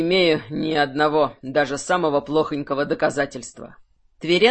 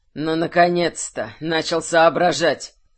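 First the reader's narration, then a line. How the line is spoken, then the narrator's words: Wry snort. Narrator (Russian): Хмыкнул Тверен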